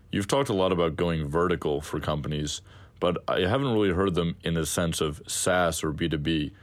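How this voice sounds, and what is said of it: Lovely deep voice. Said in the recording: “you should be in voiceovers. You have such a lovely, deep voice.”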